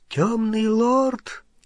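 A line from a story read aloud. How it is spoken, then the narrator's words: Frightened whisper. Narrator (Russian): испуганным шепотом продолжал Оливандер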